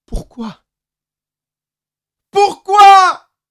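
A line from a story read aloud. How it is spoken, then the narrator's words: Sudden scream. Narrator (French): hurla-t-il soudain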